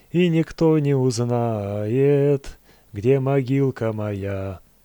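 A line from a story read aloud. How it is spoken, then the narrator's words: Nasal drawling song. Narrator (Russian): Шмигалев затянул гнусавое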